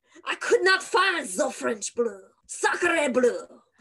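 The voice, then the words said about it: Put-on French accent. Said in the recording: “Living for the accent right now ... That's my Napoleon”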